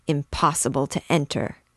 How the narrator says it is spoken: he muttered between his teeth

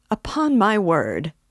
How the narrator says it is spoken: cried Luzhin

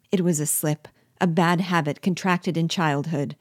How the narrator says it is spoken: answered C

